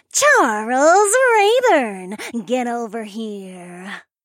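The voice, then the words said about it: Raspy snarling monster woman voice. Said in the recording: “The monster woman snarled in a raspy voice.”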